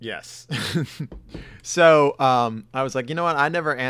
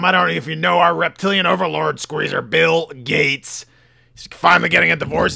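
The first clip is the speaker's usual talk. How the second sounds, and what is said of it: Gruff, raving impression of another person. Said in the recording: “my Alex Jones impression ... raving on like a lunatic ... you just make your voice a little more gruff”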